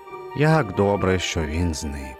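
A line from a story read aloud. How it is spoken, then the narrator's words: Relieved sigh. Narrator (Ukrainian): полегшено зітхнув він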